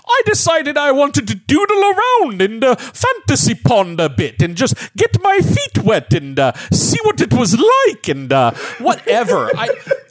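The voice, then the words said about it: Imitates another person's voice. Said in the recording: “do an amazing Peter Yates impression, or it sounds more like Terry Jones doing Spam.”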